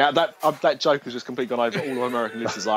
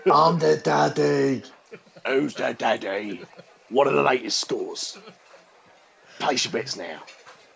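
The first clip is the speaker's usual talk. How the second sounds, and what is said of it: Imitates another person's voice. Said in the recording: “that last shitty impression, Ray Winstone”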